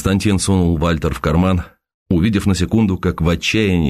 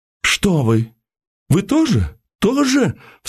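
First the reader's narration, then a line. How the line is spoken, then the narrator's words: Sharp cry. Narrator (Russian): вскрикнула Тамара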